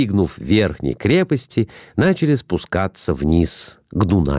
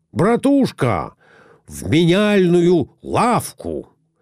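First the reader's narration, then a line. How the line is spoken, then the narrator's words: Shout. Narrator (Russian): крикнул Николай Иванович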